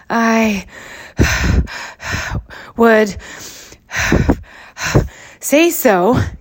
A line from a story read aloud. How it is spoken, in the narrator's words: gasped Hansom